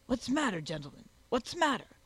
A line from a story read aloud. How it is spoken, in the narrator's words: exclaimed Spigot, rushing in